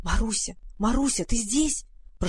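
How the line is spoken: Whisper. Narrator (Russian): прошептала Варя

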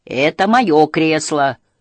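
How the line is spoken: Huge creature shouting. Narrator (Russian): закричал огромный Хемуль

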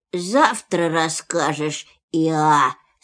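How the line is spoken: Sleepy voice. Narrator (Russian): сказал Пух сонным голосом

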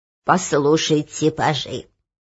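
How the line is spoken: Quavering old voice. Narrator (Russian): заговорил церемонимейстер дребезжащим голосом

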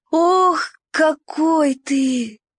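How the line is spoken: Breathless exclamation. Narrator (Russian): выдохнул Уголек

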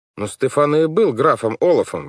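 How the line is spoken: Exclamation. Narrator (Russian): воскликнул Клаус

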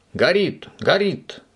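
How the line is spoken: Shouted. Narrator (Russian): сразу же закричал Субастик

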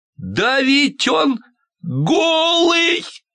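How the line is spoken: Small boy's sudden shout. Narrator (Russian): закричал вдруг какой-то маленький мальчик

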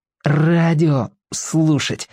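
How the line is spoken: Through gritted teeth. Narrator (Russian): сказал Владик сквозь зубы

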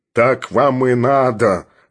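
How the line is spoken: Angry growl. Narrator (Russian): рычал Филипп Филиппович

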